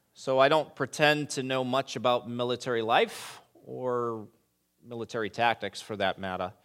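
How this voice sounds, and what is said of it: New England accent. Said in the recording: “New England accent there”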